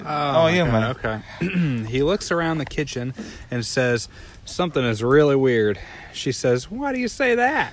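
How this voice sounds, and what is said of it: Bad put-on Southern accent. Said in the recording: “That's a really bad southern accent, too.”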